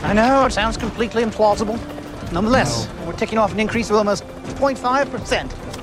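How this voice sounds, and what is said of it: Bad fake English accent. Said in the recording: “Doing the worst English accent. It's a horrible accent. ... it's bad. It's very bad. ... He's never done that accent before. ... I think he's faking that.”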